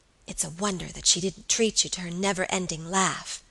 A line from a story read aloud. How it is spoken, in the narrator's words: whispered Alicia